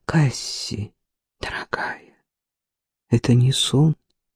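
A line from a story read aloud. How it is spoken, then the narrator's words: Whispered question. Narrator (Russian): спросил Джейсон шепотом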